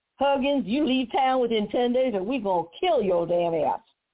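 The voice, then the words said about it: Mocking put-on Southern accent. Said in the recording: “I'm going to use a southern accent, I'm going to mock him.”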